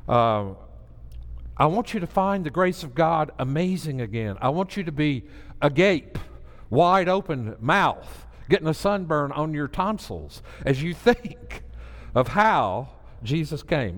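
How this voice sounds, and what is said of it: Southern American accent. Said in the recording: “I'm Southern. I have a Southern accent. ... You have a funny way of talking. You have a Southern accent.”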